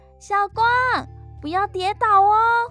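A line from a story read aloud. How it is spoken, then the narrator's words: Shouting. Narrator (Chinese): 美香喊着说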